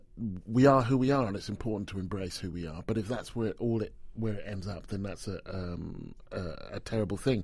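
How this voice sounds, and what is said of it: British English accent. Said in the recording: “I was 17 before I would admit that I was British, and you can hear from my voice.”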